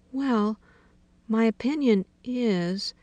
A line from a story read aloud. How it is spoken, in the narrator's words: said timidly